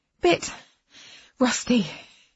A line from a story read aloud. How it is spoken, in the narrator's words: I gasped